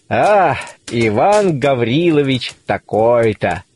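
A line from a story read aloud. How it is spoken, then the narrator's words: Muffled muttering to himself. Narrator (Russian): повторяет он глухо про себя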